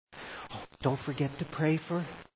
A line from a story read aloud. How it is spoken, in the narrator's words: You kind of whisper to them